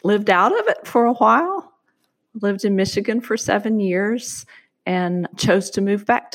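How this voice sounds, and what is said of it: American Southern accent. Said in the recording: “born and bred in the American South ... it has certainly shaped my accent. But my accent is definitely not the one that's most outstanding”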